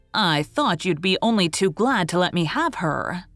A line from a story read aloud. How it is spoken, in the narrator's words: she sneered